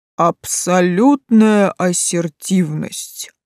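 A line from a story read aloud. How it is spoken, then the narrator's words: Velvety trained voice, dragon. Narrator (Russian): вдруг изрек хорошо поставленным бархатным голосом синий дракоша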